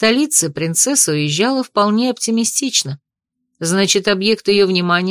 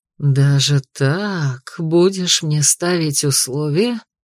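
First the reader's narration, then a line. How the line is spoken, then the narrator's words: Hissed, anger about to explode. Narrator (Russian): прошипел Эрик, в чьей голове шестеренки начали складываться в единый часовой механизм, который вот-вот обещал рвануть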